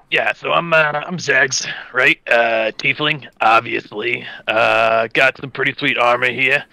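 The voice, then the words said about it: Speaks in a character voice. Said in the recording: “I'll do character voice.”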